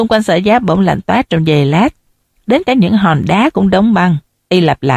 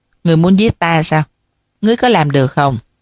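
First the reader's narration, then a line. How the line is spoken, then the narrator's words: Scornful cold laugh. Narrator (Vietnamese): Sở Giác cười nhạt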